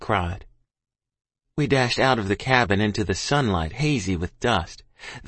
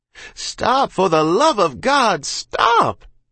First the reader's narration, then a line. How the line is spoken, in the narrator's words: Ma cried